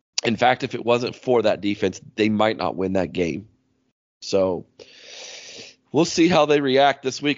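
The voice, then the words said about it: Strained, unwell-sounding voice. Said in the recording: “apologize for my voice, folks. Playing hurt”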